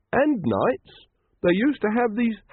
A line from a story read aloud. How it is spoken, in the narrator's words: said Brother Watchtower happily